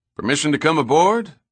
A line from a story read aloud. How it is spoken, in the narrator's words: Pitt called out